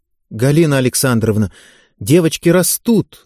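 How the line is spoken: Timid, defensive. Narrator (Russian): робко защищалась Федотова

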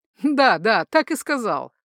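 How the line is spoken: Laughing. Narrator (Russian): сам уже смеялся Хальдуар

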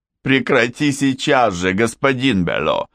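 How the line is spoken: Laughing. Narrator (Russian): сквозь смех говорил Макс

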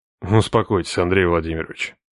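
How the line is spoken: Quiet. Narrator (Russian): сказал тихо

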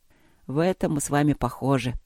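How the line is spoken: Sympathetic, weary mumble. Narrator (Russian): пробормотал Люк, сочувствуя собеседнице, и уже начиная тяготиться этим разговором

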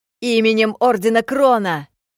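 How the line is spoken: Yelled. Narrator (Russian): заорал Джоу

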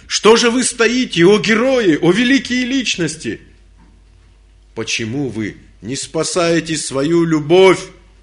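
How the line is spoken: Shouted. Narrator (Russian): закричал

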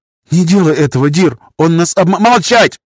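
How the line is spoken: Yelled. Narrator (Russian): заорал мастер

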